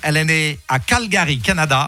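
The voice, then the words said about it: Put-on Québécois French accent. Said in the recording (French): “Alors, il parle pas comme ça... un petit accent québécois”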